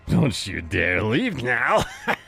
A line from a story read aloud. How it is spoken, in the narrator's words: He laughed maniacally